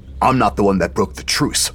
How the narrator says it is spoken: snapped Sagara

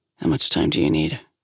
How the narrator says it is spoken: Grace asked quietly

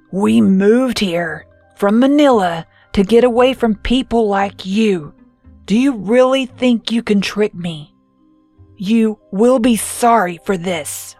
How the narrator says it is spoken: She said in a low, growling voice

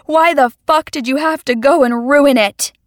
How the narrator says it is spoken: I screamed

